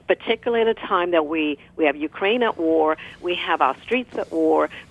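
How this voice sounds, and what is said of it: British accent. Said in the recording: “you have an accent ... you're from the UK originally”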